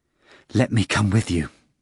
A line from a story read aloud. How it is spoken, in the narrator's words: Judas implored breathlessly